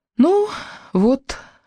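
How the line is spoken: Exhaled. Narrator (Russian): выдохнула я

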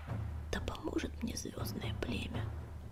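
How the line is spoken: Whisper. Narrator (Russian): прошептал Огнегриф

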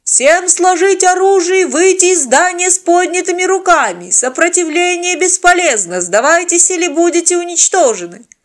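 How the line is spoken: Loud megaphone shouting. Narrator (Russian): судя по силе звука, новые штурмовики орали в приставленный к ней рупор

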